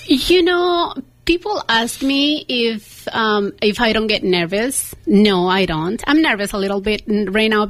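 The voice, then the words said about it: Heavy non-native English accent. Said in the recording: “I have a very heavy accent ... I have an accent ... I love your accent”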